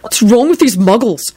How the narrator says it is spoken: He said hotly to Trevor

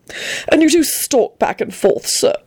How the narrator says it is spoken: he added sulkily

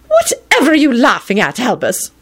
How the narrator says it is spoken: McGonagall snapped crossly

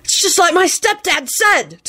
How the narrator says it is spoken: Timothy blurted out exultantly

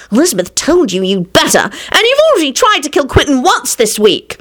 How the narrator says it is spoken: She added irritably

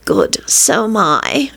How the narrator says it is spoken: she moaned again

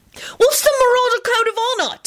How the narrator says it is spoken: Timothy burst out excitedly

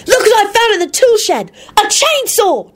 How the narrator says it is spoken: Timothy hollered out happily

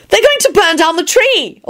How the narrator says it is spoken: Elizabeth yelled

